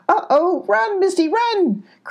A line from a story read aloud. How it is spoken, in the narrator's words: cried the goat